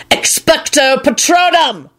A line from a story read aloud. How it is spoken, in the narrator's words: Lupin shouted